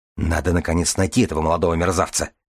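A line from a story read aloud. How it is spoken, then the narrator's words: Gruff mutter. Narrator (Russian): буркнул Джума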